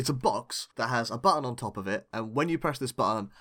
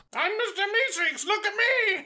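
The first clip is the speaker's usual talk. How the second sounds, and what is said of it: Funny Mr. Meeseeks character voice. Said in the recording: “a blue dude pops out of it saying ... in a funny voice”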